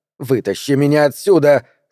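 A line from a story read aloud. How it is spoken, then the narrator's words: Yelling. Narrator (Russian): заорала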